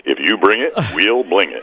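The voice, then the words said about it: Announcer-style radio voice. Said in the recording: “I'll use my radio voice ... I love that radio voice.”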